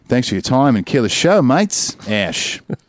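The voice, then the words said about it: Put-on Australian accent. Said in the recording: “I also should have read that in an Australian accent. I'll just end it in an Australian accent.”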